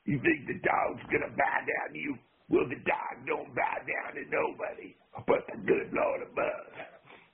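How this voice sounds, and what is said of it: Impression of the Junkyard Dog. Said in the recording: “Your impression of the junkyard dog”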